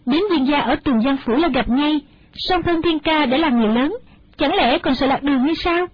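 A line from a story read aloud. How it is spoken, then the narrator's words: Smiling. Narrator (Vietnamese): mỉm cười nói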